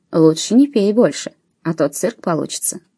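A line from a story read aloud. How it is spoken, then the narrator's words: Caring tone. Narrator (Russian): заботливым тоном она добавила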